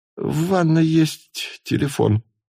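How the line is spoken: Explaining. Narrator (Russian): объяснил

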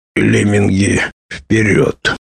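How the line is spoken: Muttered. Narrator (Russian): пробормотал мрак

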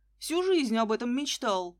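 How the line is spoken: Shouting young man. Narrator (Russian): выкрикнул парень

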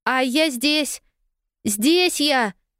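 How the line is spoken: Joyful yell. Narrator (Russian): Радостно завопила Полианна

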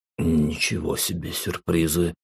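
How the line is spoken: Barely audible mutter. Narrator (Russian): пробормотал я еле слышно

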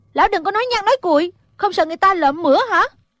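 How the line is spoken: Exasperated shout. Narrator (Vietnamese): Thủy Sinh không nhịn được quát lên

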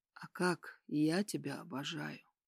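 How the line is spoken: Soft whisper. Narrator (Russian): тихо прошептал я в ее волосы

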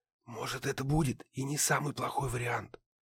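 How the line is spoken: Whispered. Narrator (Russian): шепнул Гедеон

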